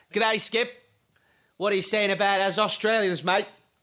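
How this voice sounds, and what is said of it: Poor put-on Australian accent. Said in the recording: “Trying to actually attempt an Australian accent? ... You're not very good at accents, are you?”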